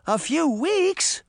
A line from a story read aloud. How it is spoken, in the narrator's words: the girls cried